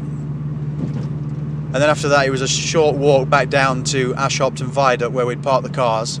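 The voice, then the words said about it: Speaker's own regional accent. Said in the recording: “hate my accent.”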